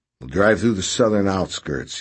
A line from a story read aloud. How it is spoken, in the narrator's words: he said